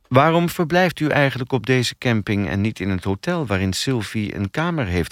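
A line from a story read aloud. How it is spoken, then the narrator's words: Plain. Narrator (Dutch): vroeg ze toen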